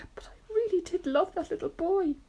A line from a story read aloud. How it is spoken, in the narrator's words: the earthworm sobbed